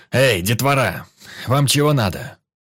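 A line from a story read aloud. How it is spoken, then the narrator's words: Big man barking. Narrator (Russian): Вновь рявкнул здоровяк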